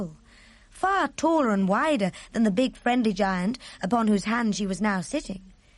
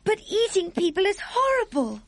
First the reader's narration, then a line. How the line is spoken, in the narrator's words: Sophie cried